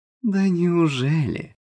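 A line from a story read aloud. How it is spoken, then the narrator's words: Purring. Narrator (Russian): промурлыкала Лола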